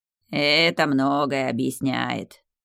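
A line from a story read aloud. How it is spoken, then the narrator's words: Understanding drawl. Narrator (Russian): Понятливо протянула дерево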